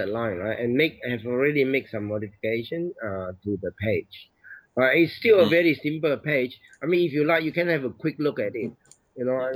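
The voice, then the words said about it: Sick, funny-sounding voice. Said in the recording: “my voice is funny because I'm crook”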